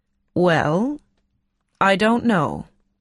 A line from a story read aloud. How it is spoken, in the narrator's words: said slowly